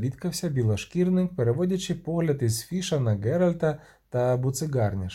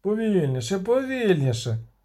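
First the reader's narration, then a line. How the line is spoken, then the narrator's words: Growled. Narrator (Ukrainian): загарчав Фіш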